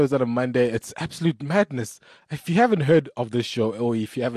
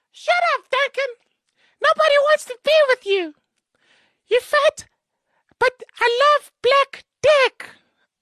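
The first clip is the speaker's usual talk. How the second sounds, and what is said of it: Imitates another person's voice. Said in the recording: “That's my impersonation of Nina Hasty”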